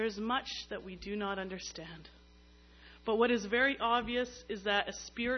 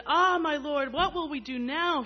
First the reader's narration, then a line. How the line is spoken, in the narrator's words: he cried out to Elisha